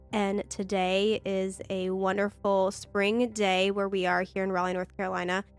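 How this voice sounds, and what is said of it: Nasal, congested voice. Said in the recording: “I sound super nasally,... I am recovering from some allergies or maybe a sinus infection”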